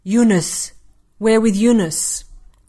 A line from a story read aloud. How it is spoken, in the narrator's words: One of the men spat